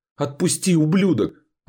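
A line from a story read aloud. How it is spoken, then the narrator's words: Screaming while struggling. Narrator (Russian): орала девушка, молотя кулаками в его грудь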